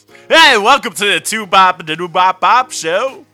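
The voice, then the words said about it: Yelled radio broadcaster voice. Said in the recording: “that's my radio guy voice. ... That's your broadcasting voice. ... Broadcasting voice. ... you didn't change your voice. You just yelled, man.”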